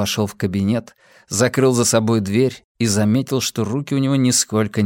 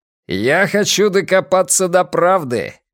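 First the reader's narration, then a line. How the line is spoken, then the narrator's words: Shouted after someone. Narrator (Russian): крикнул Дженкинс ему вслед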